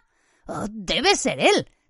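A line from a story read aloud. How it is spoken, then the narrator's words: Frightened voice. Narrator (Spanish): dijo Ron con voz asustada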